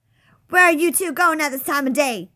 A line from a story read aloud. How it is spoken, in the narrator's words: shouted